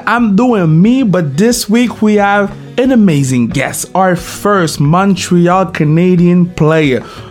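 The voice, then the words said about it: Non-native English accent. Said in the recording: “I'm practicing my English. I have an accent”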